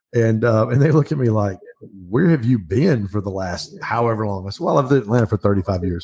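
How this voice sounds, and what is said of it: Slight Southern country accent. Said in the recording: “the accent's kind of a little country ... it's the accent”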